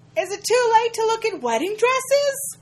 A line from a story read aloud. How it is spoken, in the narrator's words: Jenna shouts in embarrassed